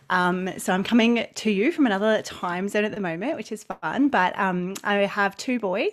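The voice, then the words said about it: Australian accent. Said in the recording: “as you can probably tell from my accent, I live in Australia.”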